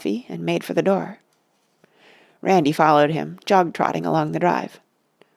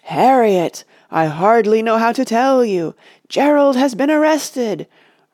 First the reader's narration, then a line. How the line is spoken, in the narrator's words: roared a mighty female voice within the radio